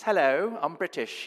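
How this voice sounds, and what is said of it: Put-on British accent. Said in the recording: “I had a British accent, and I spoke like this.”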